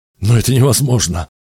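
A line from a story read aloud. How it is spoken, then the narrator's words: Exclaiming. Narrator (Russian): воскликнул Ктесфион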